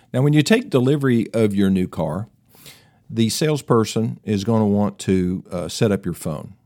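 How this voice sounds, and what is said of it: Tennessee Southern American accent. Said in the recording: “my Tennessee accent”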